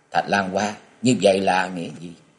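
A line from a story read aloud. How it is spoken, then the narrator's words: Cold. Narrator (Vietnamese): Hận lạnh lùng bảo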